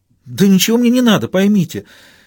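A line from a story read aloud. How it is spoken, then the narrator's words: Anguished exclamation. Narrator (Russian): с тоской воскликнула Самсуд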